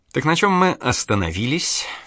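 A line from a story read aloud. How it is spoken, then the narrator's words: Silky, insinuating. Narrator (Russian): вкрадчиво продолжал он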